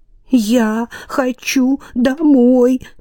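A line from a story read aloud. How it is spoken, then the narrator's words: Girl sobbing, repeating. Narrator (Russian): повторяла девочка сквозь всхлипывание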